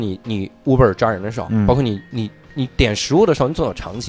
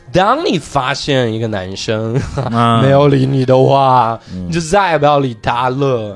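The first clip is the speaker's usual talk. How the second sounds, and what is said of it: Imitated intonation of a dating coach. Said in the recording (Chinese): “他那个语音语调，你只要模仿到位就行。比如以前我模仿一个教你谈恋爱的人”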